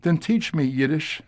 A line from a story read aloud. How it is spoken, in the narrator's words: Samuel begged